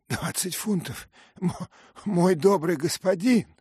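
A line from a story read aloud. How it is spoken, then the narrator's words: Sharp cry. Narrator (Russian): вскрикнул Кондель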